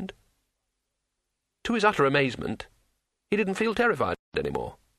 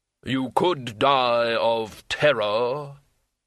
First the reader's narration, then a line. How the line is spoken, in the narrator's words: the hood intoned